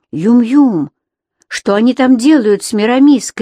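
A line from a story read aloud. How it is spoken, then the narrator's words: Shouted. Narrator (Russian): крикнул я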